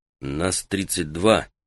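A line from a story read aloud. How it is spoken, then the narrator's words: Quiet. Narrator (Russian): негромко сказал он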